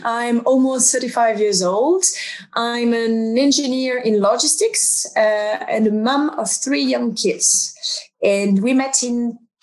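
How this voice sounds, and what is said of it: French accent. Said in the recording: “I'm French, as you can tell by the accent.”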